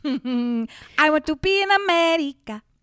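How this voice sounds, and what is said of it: Put-on Latin accent. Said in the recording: “Could you do that with your Latin accent?”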